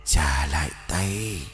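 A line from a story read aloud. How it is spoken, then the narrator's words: Faint distant hiss. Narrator (Vietnamese): Tiếng rít văng vẳng rồi như tan vào gió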